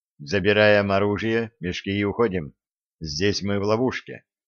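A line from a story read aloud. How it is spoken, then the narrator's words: Very quiet command. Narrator (Russian): Хворый очень тихо командует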